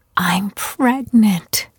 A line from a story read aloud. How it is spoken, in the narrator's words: she whispered